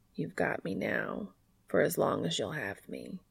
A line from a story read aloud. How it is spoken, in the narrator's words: he murmurs